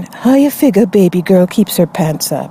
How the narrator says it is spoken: I leaned over and whispered to my friend

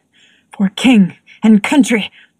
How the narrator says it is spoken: muttered something like

